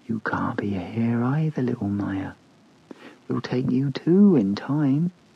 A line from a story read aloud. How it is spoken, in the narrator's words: whispered in his ear